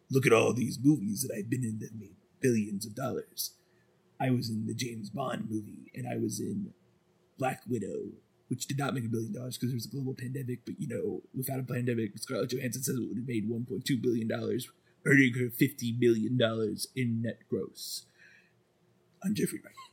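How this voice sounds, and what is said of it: Jeffrey Wright impression. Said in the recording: “Jeffrey Wright would be down ... He'd be like ... Let me do my different impression.”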